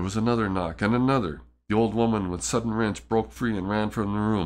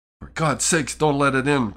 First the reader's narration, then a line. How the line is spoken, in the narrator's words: cried the old man, trembling